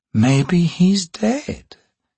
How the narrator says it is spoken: Simtal said, relaxing with a sigh

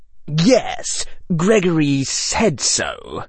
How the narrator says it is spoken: Draco Malfoy said smoothly

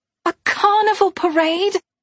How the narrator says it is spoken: Pippa exclaimed

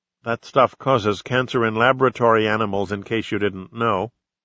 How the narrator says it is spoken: She waited a long moment, then said evenly

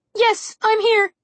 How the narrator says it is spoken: Trix peeped nervously

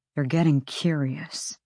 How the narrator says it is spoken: Flynn murmured

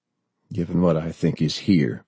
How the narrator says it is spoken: Bob said softly

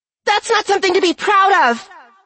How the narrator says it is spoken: Fizzy shrieked internally

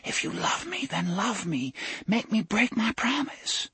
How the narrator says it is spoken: she put them to his ear and whispered

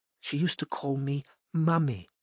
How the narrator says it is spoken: whispered Cynthia

